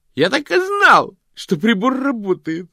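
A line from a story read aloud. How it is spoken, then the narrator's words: Exclaiming wizard. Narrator (Russian): воскликнул волшебник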